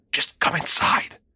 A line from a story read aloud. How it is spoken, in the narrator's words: hissed